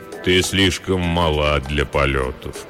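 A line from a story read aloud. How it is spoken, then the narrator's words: Deep soft voice. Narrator (Russian): произнес высокий человек глубоким мягким голосом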